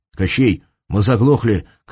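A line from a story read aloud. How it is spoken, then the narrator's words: Shout. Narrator (Russian): крикнул Герман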